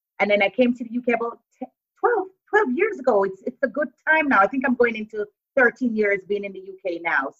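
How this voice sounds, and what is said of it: Jamaican accent with some American. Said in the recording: “I love your accent so much, and everyone's going to notice that you have an accent ... the accent is cross-transatlantic. It's like Jamaican, a bit of American. I don't have a thick British accent”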